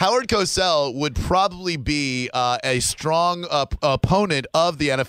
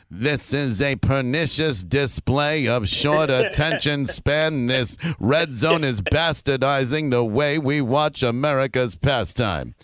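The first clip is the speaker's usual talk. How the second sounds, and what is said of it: Imitates another person's voice. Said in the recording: “very good impression.”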